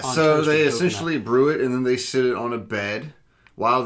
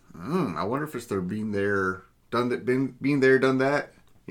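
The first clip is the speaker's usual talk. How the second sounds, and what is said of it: Put-on Wisconsin accent. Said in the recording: “What kind of accent's that? ... Wisconsin.”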